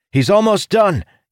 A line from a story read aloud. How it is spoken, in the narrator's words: Ildin shouted